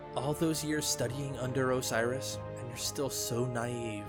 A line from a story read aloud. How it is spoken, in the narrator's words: Lakshmi replied